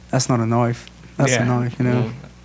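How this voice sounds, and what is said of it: Put-on Australian accent. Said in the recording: “can somebody do an Australian accent? ... it's gonna come out like Crocodile Dundee”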